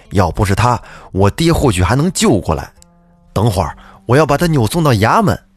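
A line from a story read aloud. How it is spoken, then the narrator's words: Furious. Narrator (Chinese): 杨少爷这气还没消呢，暴怒道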